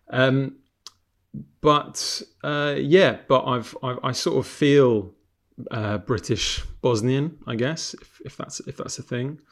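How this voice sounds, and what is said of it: London accent. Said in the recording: “hence my kind of London accent, as you can probably hear”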